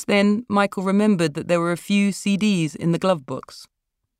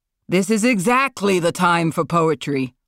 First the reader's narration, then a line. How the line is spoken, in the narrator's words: Marlon shouted